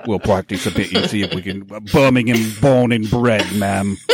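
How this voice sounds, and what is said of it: Put-on British Birmingham accent. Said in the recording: “Your British accent? ... Awful. ... That's pretty good. ... It's not that bad.”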